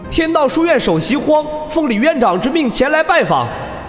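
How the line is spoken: Deep breath, loud shout. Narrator (Chinese): 深吸一口气后，大声喊道

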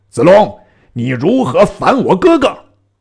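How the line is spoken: Shouting. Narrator (Chinese): 张飞横矛立马于桥上，大叫

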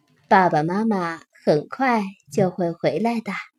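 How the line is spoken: Gentle, tender. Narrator (Chinese): 辛迪妈妈温柔的对他说

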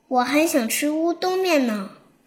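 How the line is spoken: Admiring praise. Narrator (Chinese): 小龙 不禁的赞叹道

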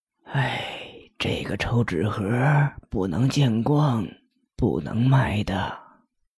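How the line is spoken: Sighing, troubled. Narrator (Chinese): 老妇人脸色一变，突然叹了口气，紧接着继续说道

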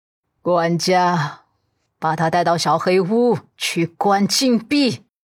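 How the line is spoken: Old woman's hoarse, stern voice. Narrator (Chinese): 陆家老太太平息了几分情绪后，眸底恢复了一贯的威严 哑声道

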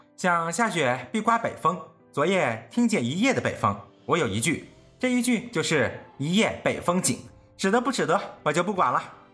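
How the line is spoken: Laughing. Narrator (Chinese): 凤姐笑道

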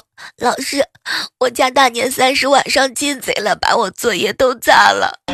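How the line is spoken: Crying. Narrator (Chinese): 哭着对老师说

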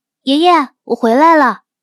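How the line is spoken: Forced cheerful call. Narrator (Chinese): 冯锦……打起精神喊了一声

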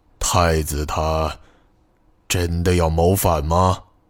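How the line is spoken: Agitated, angry. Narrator (Chinese): 徐远成就像是一只发怒的猴子

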